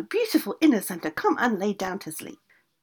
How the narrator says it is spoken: the witch cried out 1 more time

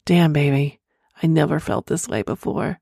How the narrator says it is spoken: moans, eventually grunted

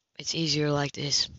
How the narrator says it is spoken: he said, faintly sheepish

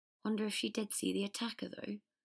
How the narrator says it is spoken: said Ron, looking sadly at Hermione's rigid face

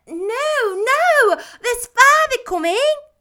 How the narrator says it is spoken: cried the two young Cratchits

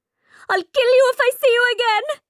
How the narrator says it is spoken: Meeta shouts

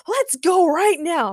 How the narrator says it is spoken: Makithia shouted at Reed

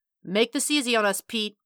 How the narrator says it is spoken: he called out

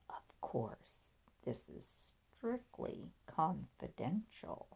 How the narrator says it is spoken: lowered his voice and said

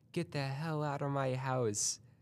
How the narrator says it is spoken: I screamed, as in terror

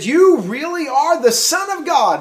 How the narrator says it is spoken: they exclaimed

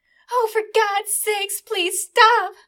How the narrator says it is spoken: Melanie cried

